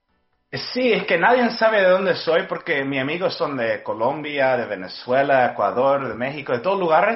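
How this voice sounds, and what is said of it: Unusual, hard-to-place Spanish accent. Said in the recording (Spanish): “Tienes un acento raro. O sea, como que ni de acá ni de allá, pero muy bonito.”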